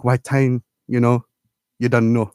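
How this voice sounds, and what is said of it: Put-on Jamaican accent. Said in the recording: “in the Jamaican accent”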